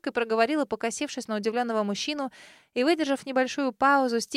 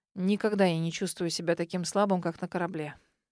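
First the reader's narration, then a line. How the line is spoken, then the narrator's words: Snorting man. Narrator (Russian): хмыкнул мужчина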